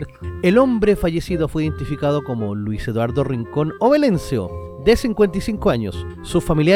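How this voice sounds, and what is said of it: Usual voice. Nothing is said of it.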